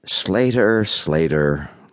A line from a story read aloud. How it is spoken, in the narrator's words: Liberty said, her voice loving